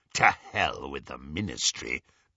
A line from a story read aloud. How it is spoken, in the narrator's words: growled Greyback